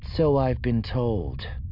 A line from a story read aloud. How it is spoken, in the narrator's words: Thalias said dryly, feeling a sense of relief